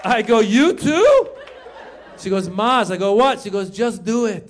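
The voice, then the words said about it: Mother's voice with Iranian accent. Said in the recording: “my mom had an accent in that joke because, as you guys know, like I said, I'm Iranian”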